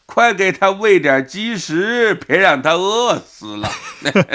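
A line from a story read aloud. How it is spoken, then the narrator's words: Shouting. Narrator (Chinese): 王敏章就喊了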